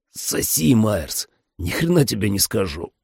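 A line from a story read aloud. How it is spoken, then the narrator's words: Hoarse rasp. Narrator (Russian): просипел я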